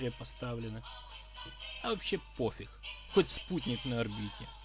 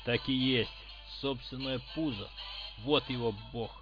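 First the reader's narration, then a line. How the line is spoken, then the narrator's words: Angry thought. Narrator (Russian): зло подумал сталкер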